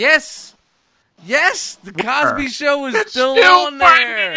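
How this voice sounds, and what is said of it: Usual voice. Nothing is said of it.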